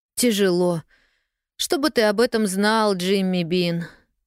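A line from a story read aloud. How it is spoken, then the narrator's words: Sighing. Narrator (Russian): вздохнула Полианна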